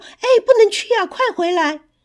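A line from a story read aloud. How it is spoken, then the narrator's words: Anxious parents calling. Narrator (Chinese): 爸爸妈妈着急的叫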